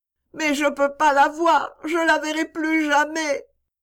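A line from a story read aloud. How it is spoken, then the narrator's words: Sobbing. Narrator (French): Topsy sanglota de nouveau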